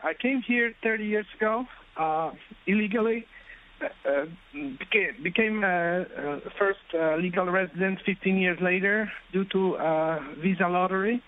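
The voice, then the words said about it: Polish-accented English. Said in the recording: “as you can sense from my accent ... back in Poland”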